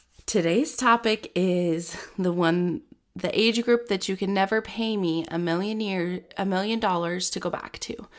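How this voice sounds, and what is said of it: Raspy, stuffy congested voice. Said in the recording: “My voice is a little raspy, stuffy, because I have the winter cold”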